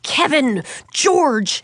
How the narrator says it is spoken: she shouted, her voice suddenly sounding shrill and sharp

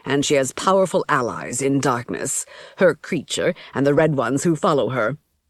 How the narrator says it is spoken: Kelowna said grimly

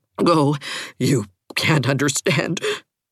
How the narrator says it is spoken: gasped Catherine

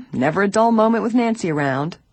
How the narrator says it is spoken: George laughed gaily

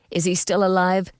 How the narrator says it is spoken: George called anxiously

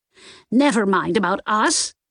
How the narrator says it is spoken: Nan snapped

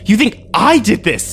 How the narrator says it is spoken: I screamed at him

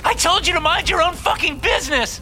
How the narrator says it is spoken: She screams

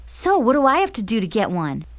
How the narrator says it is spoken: Jason asked excitedly

